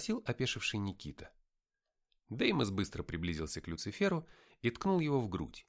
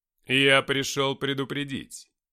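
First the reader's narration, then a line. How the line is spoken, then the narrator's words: Menacing voice. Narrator (Russian): сказал Люцифер грозным голосом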